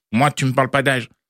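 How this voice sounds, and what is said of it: Poor impression of Kylian Mbappé. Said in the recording (French): “Je sais, très mauvaise imitation.”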